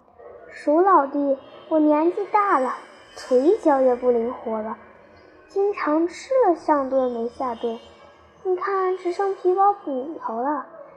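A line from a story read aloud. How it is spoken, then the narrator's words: Falsely sincere. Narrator (Chinese): 猫虚情假意地对老鼠说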